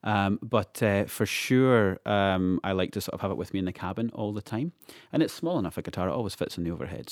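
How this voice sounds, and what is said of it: Scottish accent. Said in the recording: “your charming Scottish accent”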